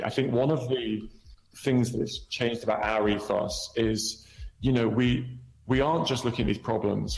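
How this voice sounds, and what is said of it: Speaks with a funny accent. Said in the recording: “my funny accent”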